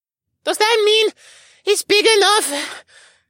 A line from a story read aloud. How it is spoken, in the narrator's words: Arik panted